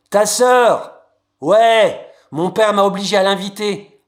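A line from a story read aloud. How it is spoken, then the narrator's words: Exasperated yell. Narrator (French): a-t-il hurlé en levant les yeux au ciel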